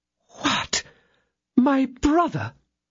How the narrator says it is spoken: she exclaimed, overwhelmed with astonishment

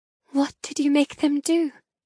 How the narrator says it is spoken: whisper

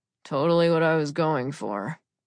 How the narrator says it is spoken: he said, his voice muffled as if he was already halfway asleep

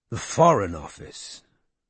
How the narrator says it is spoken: he repeated quietly

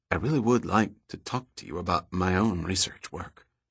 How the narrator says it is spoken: said in a low voice

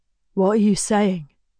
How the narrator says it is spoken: Griffin asks slowly

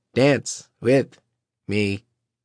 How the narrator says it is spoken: Silas said in a mock robot voice

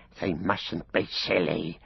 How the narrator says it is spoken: he hissed

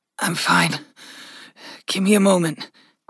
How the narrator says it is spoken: Gregory panted, the pain fading

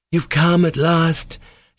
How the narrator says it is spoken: she cried, joyfully greeting Alyosha

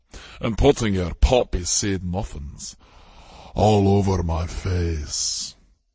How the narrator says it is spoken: Kevin growled

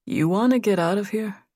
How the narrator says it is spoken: Greg said quietly

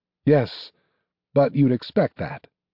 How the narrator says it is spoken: said Valerian, his voice hollow and empty

